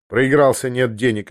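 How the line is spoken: Dry. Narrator (Russian): ответил он сухо

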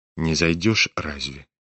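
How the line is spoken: Quiet question. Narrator (Russian): тихо спросил его князь

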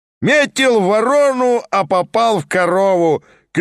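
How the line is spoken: Drunk man bellowing. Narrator (Russian): крикнул во все горло какой-то дурак, должно быть пьяный

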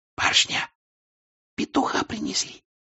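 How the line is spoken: Girl whispering. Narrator (Russian): шепотом сказала девушка

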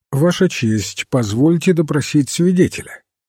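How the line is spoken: Perfectly calm. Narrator (Russian): королевский адвокат Батлер совершенно спокойно сказал

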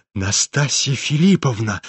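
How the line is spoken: Trembling voice. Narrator (Russian): дрожащим голосом проговорил Афанасий Иванович

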